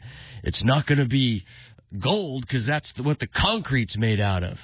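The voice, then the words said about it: Gruff imitated older man's voice. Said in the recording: “he had a gruff ... do my best impression of the senator”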